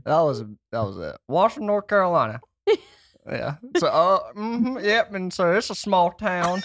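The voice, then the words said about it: North Carolina Southern twang. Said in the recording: “I can't say that without any twang in my voice... Can you give us the accent that you sent us in the voice text”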